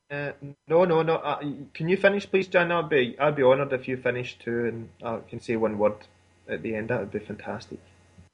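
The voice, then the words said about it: Scottish accent. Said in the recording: “I love your accent ... There is that Scottish accent, just pretty amazing stuff”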